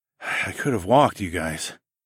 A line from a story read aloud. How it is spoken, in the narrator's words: I mumbled out a token protest